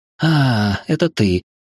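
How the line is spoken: Relieved exhale. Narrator (Russian): Облегченно выдохнула Лора

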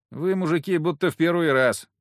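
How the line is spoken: Bored tone. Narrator (Russian): скучающим тоном сказала земляна

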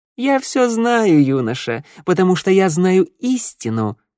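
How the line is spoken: Snort. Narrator (Russian): хмыкнул Кобзарь

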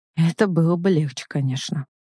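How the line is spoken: Tight-lipped mutter. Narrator (Russian): бормочет Оленин, сжимая губы

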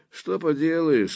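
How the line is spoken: Sighing official. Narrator (Russian): вздохнул верховный комиссар сопротивления

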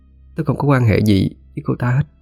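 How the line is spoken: Hesitant reply. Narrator (Vietnamese): Diệu An ngập ngừng trả lời

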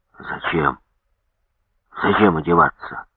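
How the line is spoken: Hoarse question. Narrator (Russian): сипло спросил

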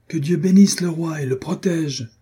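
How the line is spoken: Enthusiastic crowd shouting. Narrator (French): cria la foule enthousiasmée

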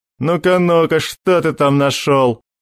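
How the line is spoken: Laughing. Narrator (Russian): засмеялся

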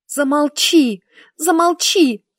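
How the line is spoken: Sharp cry. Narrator (Russian): вскрикнула

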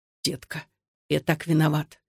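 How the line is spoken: Very quiet. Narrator (Russian): Очень тихо Александр сказал

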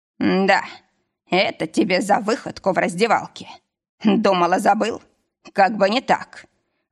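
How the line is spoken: Growled. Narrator (Russian): рыкнул

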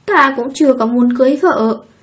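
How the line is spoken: Sulky, reluctant. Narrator (Vietnamese): Khóe miệng mếu máo, vẻ mặt không tình nguyện, Thương Diễm Trạch nói

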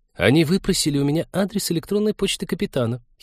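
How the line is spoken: Giggling. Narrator (Russian): хихикнула зоолог

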